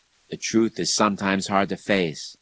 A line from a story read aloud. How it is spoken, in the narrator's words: the Christian bishop sighed